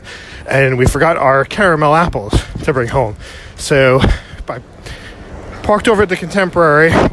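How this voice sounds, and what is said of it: Out of breath while talking. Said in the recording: “Sorry if I'm out of breath because I'm moving fast.”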